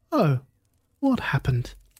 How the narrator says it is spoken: asked calmly

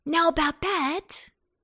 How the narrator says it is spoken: cried Antone at last, when Babette showed no signs of stopping

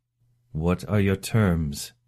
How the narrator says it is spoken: he asked again, keeping his voice level with an effort

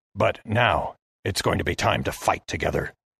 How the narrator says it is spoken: he hissed to me

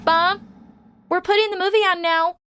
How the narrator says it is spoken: shouted Paula

